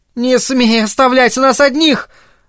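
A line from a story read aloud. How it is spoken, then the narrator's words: Shrieked in face. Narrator (Russian): Взвизгнула она ему в лицо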